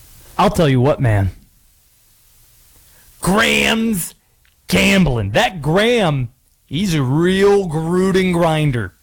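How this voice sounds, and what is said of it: Jon Gruden impression. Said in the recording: “I'll do this tease in the Gruden voice.”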